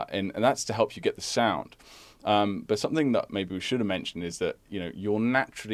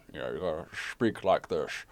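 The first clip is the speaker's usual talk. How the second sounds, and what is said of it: Sean Connery impression. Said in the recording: “doing a Sean Connery impression”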